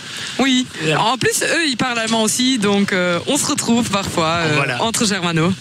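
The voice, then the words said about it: German-speaker's accent in French. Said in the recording (French): “j'adore votre accent ... C'est encore meilleur avec l'accent ... cet accent ... germanophones”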